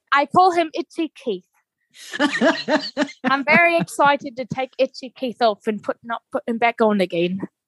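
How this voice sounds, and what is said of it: Good put-on British accent. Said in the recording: “With that British accent... everything's better with that accent, right? Which you capture pretty well... That's a really good accent.”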